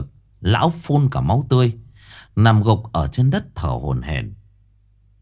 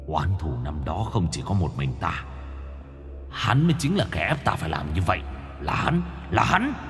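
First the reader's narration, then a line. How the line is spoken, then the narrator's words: Angry growling. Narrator (Vietnamese): Lão miệng gầm gừ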